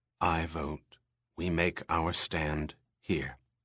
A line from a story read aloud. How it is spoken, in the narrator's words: In a low voice, Pris said